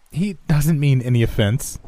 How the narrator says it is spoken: Amy said, echoing my uncomfortable giggles

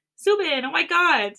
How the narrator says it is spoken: she laughs

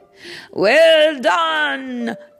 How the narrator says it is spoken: the audience shouted

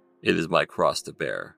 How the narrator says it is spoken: Jefferson said dryly

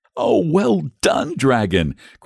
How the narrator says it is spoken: cried the boy excitedly

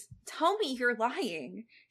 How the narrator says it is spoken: she begged him, feeling like a child again

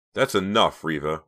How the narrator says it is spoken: Rawson said sharply

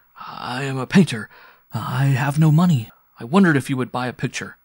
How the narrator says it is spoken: he was almost too agitated to speak, and he stammered as he said

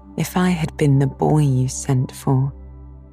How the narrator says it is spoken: said Anne wistfully

